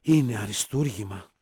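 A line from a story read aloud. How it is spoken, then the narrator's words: Whispered. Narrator (Greek): ψιθύρισε η Χάρης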